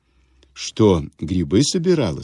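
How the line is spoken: Plain. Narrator (Russian): спросил он

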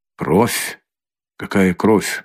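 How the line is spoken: Frightened mutter. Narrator (Russian): бормотал он, бледнее

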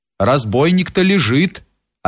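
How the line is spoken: Calm answer. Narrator (Russian): отвечал спокойно Кирша

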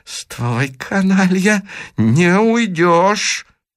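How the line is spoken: Through gritted teeth. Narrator (Russian): проговорил сквозь зубы доктор

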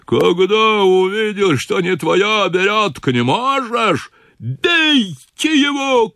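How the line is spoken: Frenzied shouting. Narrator (Russian): кричал он исступленно

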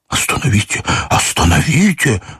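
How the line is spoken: Urgent whisper. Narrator (Russian): зашептал мне генерал

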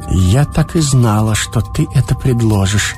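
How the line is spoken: Barely audible, thoughtful. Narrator (Russian): она произнесла, еле слышно, точно в раздумье

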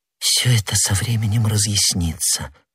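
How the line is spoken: Young woman whispering. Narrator (Russian): прошептала молодая женщина

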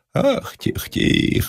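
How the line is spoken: Whimpering woman's voice. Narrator (Russian): заскулила бабья голова

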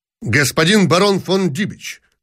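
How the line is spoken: Sharp. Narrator (Russian): сказал он резко

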